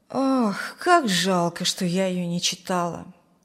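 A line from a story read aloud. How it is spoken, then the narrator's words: Sighing. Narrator (Russian): вздохнула Зина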